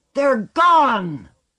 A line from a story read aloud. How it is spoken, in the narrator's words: They were all roaring at him and at one another, laughing and crying